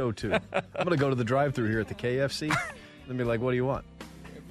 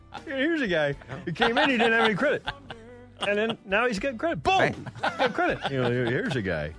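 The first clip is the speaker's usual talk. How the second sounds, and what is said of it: Imitates another person's voice. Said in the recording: “It's not a great impression”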